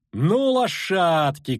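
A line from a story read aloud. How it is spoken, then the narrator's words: Shout. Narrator (Russian): крикнула Искра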